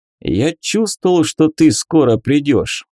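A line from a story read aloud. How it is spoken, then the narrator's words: Joyful greeting. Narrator (Russian): радостно приветствовал Лагис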